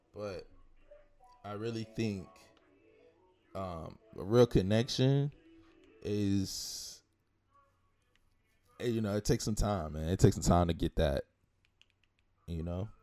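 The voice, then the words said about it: Rough, cracking early-morning voice. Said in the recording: “My voice is going up, man. ... it's that early morning vibe.”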